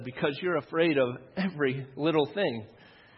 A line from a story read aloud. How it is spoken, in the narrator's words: chuckled and said